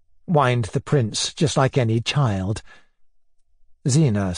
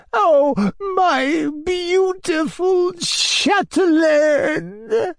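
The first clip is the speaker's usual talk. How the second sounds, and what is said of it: Shaky, aged, emotional voice. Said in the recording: “in his shaky old voice, shaky with old age and emotion combined.”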